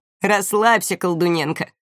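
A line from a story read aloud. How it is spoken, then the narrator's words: Chuckle. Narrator (Russian): хохотнул Камиль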